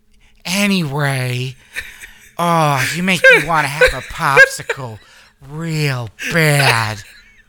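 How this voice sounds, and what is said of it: Impression of CJ, Stifler's mom-like voice. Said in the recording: “Say something CJ-ish in that voice ... do an impression of her ... It's Stifler's mom, basically.”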